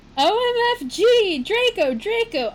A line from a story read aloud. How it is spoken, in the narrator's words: I screamed, having an orgasm